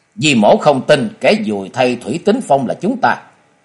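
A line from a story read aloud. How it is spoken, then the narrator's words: Angry shout. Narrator (Vietnamese): Thoạt nghe lời của bà ta nói, chàng không khỏi tức giận quát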